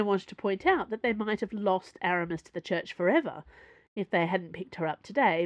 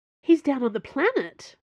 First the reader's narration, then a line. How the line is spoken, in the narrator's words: Porthos exclaimed